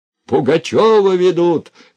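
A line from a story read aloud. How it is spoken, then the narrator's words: Shouting. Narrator (Russian): кричал он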